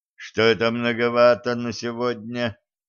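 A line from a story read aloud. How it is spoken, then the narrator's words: Displeased, thoughtful grumble. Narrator (Russian): недовольно проворчал, раздумывая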